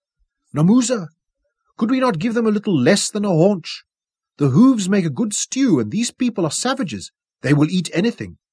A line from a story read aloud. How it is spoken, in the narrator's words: pleaded